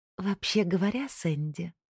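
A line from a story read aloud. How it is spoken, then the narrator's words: Soft. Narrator (Russian): мягко произнесла Лоретта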